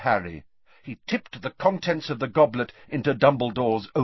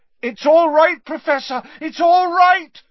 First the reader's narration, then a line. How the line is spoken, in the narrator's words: said Harry loudly